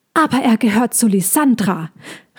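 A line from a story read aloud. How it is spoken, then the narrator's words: Squirrel shouting at full volume. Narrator (German): rief das Eichhörnchen, so laut es konnte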